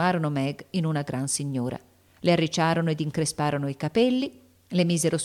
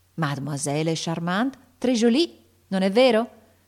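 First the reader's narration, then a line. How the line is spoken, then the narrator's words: Shouted, affected admiration. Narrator (Italian): gridò Ortensia con affettata ammirazione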